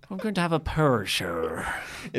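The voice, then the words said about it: Uncertain put-on Northern Irish accent. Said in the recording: “Is that how you're going to talk the entire time? ... I don't even know if this is an Irish accent. ... Or a Northern Irish accent.”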